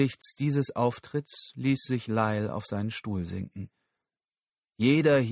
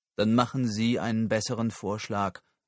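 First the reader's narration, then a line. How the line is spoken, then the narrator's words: Calling out. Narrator (German): rief Samoa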